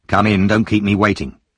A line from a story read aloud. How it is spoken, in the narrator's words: saying impatiently